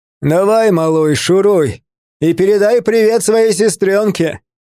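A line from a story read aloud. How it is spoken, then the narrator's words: Shout with hoarse laughter. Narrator (Russian): крикнул он мне вслед, и его хриплый смех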